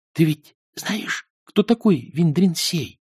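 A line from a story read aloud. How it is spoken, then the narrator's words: Whispered. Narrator (Russian): прошептал Эрик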